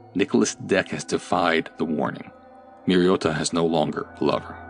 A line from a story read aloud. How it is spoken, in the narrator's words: a voice that whispered